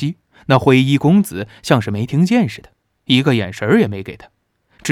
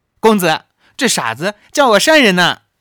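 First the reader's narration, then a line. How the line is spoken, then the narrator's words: Girl, coquettish laugh. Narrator (Chinese): 紫衣少女娇笑起来，回头对那楼上的公子说道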